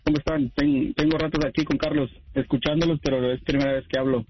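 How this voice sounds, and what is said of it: Radio announcer voice. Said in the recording (Spanish): “tienes voz de locutor... Y tiene voz de locutor”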